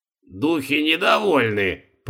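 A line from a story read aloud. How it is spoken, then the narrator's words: Creaking through teeth. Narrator (Russian): проскрипел зубами Продгуста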